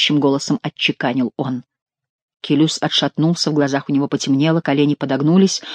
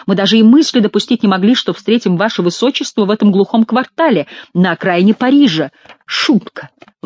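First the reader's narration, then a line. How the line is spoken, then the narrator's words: Exclaiming. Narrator (Russian): воскликнул Франсуа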